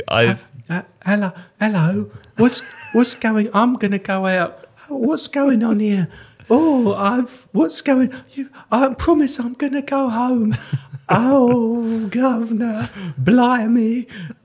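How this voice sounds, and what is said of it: Exaggerated bad English accent, Natalie Portman. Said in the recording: “Natalie Portman's English accent is not very good ... it's not as bad as that”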